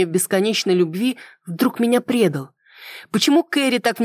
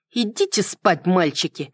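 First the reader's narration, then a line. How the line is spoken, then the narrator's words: Irritated retort. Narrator (Russian): раздраженно парировала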